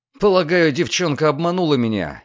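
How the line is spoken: Angry speech. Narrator (Russian): сердито проговорил Люциан

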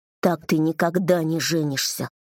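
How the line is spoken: Gloomy statement. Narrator (Russian): мрачно сказал я

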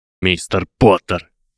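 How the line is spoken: Barking shout. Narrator (Russian): гаркнул он

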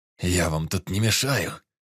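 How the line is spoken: Groaning through gritted teeth. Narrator (Russian): Простонал, скрипя зубами скорчившийся Некрасов

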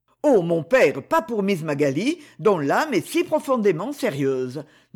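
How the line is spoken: Plain. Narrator (French): dit Lord Gerald

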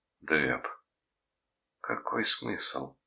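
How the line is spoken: Whisper. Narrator (Russian): прошептала она

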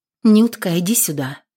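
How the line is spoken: Quiet call from mother. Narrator (Russian): позвала тихонько мать

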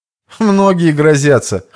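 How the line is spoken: Snorting reply. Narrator (Russian): хмыкнув, отреагировал

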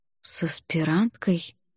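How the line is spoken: Muttering. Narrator (Russian): пробормотала я

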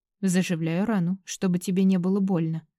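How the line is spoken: Completely calm. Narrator (Russian): абсолютно спокойно отвечает Дерек

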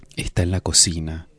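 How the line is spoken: Whisper in ear. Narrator (Spanish): le susurró en la oreja

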